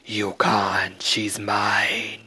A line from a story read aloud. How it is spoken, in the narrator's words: roared